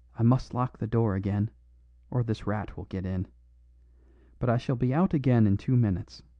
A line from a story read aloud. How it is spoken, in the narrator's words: he whispered rapidly